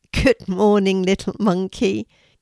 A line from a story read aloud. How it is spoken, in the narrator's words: Kelti giggled